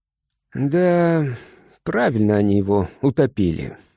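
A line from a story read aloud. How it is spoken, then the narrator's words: Tired. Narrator (Russian): устало сказал Мишка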